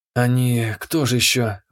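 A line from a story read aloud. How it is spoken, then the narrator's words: Sighing. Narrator (Russian): вздохнула Нида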